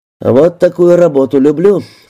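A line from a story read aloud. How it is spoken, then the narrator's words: Enthusiastic announcement. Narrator (Russian): восторженно объявил Саша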